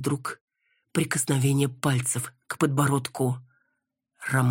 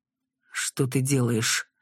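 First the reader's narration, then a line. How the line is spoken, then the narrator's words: Through gritted teeth. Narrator (Russian): Процедил сквозь зубы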